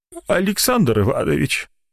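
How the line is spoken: Whiny, tearful voice. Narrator (Russian): обратился он плаксивым голосом к доктору

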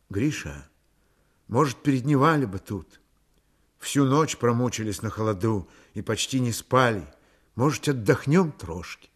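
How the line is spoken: Timid suggestion. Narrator (Russian): Аксинья робко предложила

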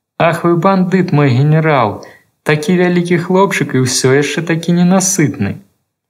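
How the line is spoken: Sad consoling singing. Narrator (Belarusian): яму рабілася сумна, пачынаў спяваць, каб суцешыць сабе

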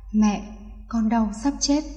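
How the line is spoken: Trembling pained whisper. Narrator (Vietnamese): giọng run run thì thầm

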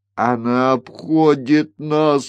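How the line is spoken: Breathless exhale. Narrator (Russian): выдохнул Бориас Мун

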